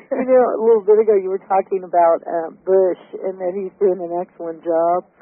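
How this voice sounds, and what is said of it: Voice slightly stuffy with a cold. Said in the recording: “I've got a little bit of a cold”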